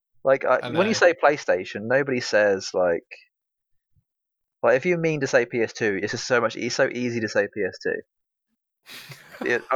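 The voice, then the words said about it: Norfolk accent, slurred words. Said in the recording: “That's why I'm from Norfolk... we slur our words and talk with a funny accent sometimes”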